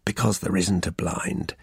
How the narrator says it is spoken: he said with a quiet chuckle

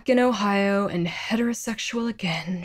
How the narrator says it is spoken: she sighed

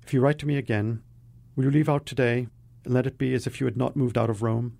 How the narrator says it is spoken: she said quickly, as if the words were red-hot coals over which she must pick her way

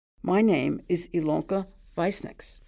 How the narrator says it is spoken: said Elka

